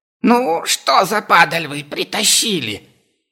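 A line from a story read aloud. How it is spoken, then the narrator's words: Merchant's shrill voice. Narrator (Russian): раздался визгливый голос торговца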